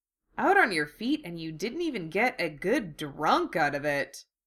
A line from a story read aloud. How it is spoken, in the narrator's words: Sano grumbled